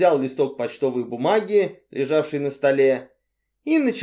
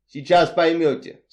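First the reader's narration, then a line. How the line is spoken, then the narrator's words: Plain. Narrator (Russian): сказал мистер Ривз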